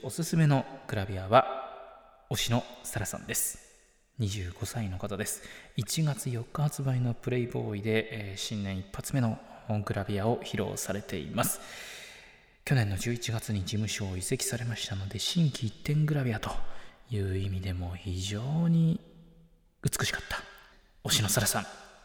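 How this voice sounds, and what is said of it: Whispering. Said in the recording (Japanese): “ささやきもお届けしました”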